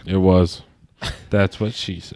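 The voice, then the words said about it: Imitates another person's voice. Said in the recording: “That was a great Kevin impression.”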